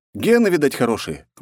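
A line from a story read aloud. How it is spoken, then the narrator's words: Smirking grunt. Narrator (Russian): хмыкнул я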